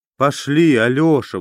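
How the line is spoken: Pleading woman. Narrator (Russian): взмолилась генеральша

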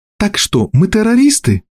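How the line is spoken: Cheerful. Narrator (Russian): весело сказала Джулия

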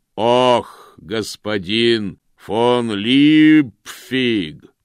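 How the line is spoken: Booming distant shout. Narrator (Russian): прогремело с конюшенного двора

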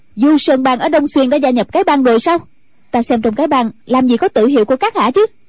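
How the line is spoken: Sudden sharp shout. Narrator (Vietnamese): Ân Tố Tố bỗng quát lên

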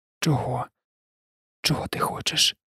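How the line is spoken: Whispered. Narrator (Ukrainian): прошепотіла

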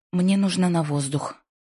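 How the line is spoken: Sharp declaration. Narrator (Russian): резко заявила Лайза

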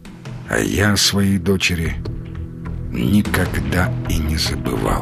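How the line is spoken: Quiet, sorrowful old man. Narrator (Russian): Старик с тоской и болью в глазах посмотрел на Сергея и тихо сказал

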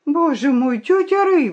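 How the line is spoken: Exclaimed. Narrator (Russian): воскликнула она

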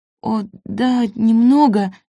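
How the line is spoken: Halting, hesitant. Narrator (Russian): запинаясь, выговорила Нина

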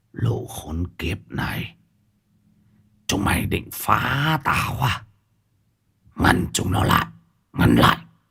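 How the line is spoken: Fierce muttering. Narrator (Vietnamese): miệng của lão lẩm bẩm

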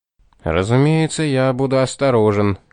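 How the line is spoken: Grumble. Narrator (Russian): пробурчал Томас

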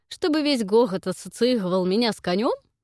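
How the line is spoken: Short laugh, uncle. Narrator (Russian): хохотнул дядя

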